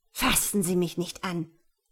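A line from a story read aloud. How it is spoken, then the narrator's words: Hissing. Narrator (German): fauchte sie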